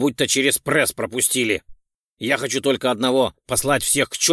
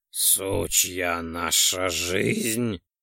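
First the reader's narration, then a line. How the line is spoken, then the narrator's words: Hoarse drawl. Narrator (Russian): хрипло протянул Ролден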